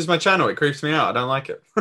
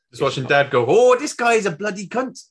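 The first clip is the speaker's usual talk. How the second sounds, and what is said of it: Put-on Scottish accent. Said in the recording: “I made you sound fucking Scottish”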